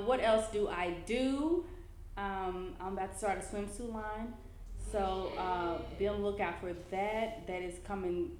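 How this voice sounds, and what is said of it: Memphis Southern accent. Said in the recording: “I am the chick from Memphis who people always want to ask where am I from because of my accent.”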